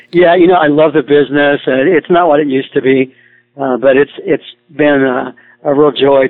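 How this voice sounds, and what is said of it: Slightly strained voice. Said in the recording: “I don't have the voice I used to have. It's a little strained right now, actually ... my voice is a little strained from doing that ... stressed on, on the voice end.”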